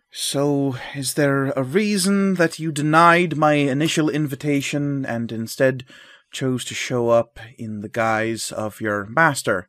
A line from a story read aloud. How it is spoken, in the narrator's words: will sigh and say